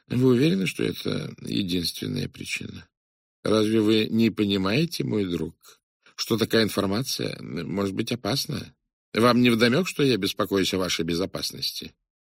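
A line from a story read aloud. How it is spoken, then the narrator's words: Calm. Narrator (Russian): Пуаро спокойно сказал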